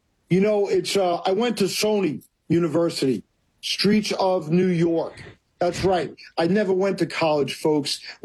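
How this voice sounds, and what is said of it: New York accent. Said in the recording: “I'm loving the New York accent.”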